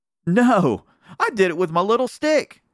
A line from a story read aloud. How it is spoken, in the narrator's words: cried Neddie